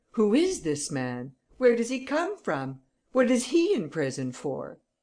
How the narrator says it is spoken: exclaimed the judge

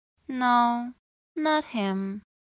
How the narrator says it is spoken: I said in a dry, unenthused tone

